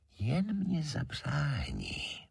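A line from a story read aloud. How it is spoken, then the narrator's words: Very softly whispered. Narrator (Czech): valach Žemlička tichoučce pošeptá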